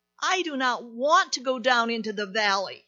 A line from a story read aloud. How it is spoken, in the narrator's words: he cried